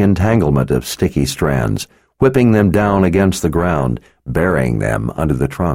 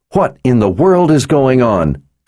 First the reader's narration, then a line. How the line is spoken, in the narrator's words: Kara asked through the roar of the downpour